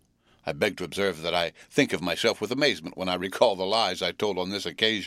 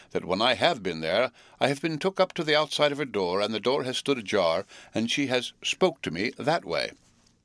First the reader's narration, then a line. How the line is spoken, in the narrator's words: Pumblechook testily